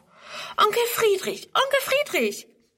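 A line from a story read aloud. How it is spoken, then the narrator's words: Calls out. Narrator (German): ruft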